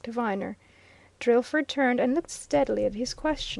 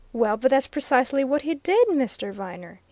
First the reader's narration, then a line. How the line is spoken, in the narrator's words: he exclaimed